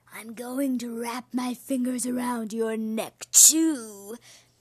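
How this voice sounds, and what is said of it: Howling spooky ghost voice. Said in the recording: “she howled in her spooky voice.”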